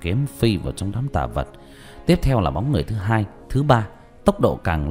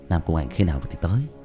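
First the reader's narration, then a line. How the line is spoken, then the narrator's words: Sighing question. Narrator (Vietnamese): Diệp Thiếu Dương thở dài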